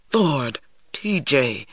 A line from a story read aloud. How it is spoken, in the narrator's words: Stacy exclaimed in a whisper